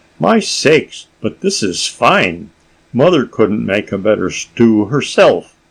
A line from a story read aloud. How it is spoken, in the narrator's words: he could not help exclaiming